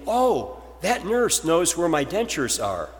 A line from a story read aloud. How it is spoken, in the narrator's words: he exclaimed